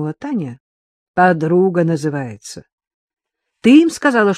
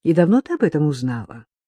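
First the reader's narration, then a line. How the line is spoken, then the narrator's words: Feigned gentle question. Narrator (Russian): притворно ласково спросила Татьяна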